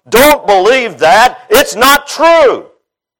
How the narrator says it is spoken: This giant is always yelling out

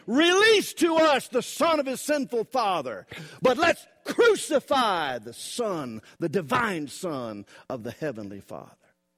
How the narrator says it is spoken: The people are screaming

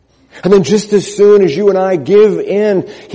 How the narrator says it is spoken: he shouts out

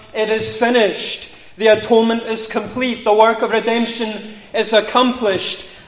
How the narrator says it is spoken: Jesus has cried in triumph

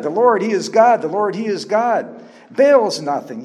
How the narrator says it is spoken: You all even shouted

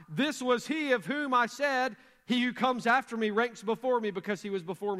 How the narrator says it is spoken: John cried out

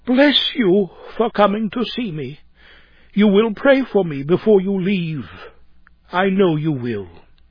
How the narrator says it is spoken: in a tremulous, broken voice said

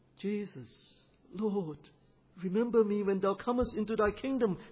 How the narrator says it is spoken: he cried

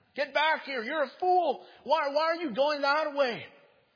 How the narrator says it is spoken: the world was screaming at him

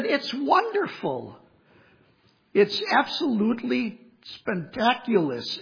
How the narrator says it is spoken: exclaimed the friend

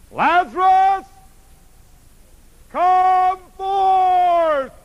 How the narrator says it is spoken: he shouted

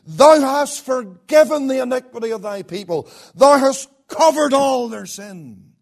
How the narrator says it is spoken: he exclaims

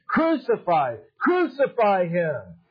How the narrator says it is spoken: they kept shouting

